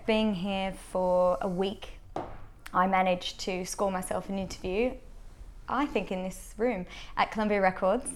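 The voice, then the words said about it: Australian accent. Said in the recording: “moved over from Australia. ... Hence the accent.”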